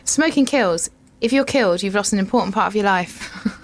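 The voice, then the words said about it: Standard UK accent. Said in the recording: “I'm just going to read it in my standard UK voice.”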